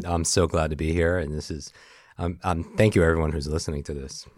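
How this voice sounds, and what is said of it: Deep sexy baritone podcast voice. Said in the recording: “your baritone is coming in thickness... You have such a good podcast voice... you have that sexy, there is a podcast voice... yours sounds so sexy”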